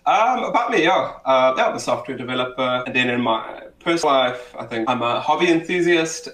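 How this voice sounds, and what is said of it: South African accent. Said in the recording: “South African, Cape Townian, born and bred. I might be the stereotype, just not my accent. ... people always like, hey, you sound like you're from Joburg or Durban.”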